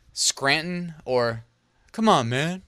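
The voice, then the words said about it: Imitates a politician's voice. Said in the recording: “That's my impression ... That was my best job at impersonating ... I can't do good politician impressions”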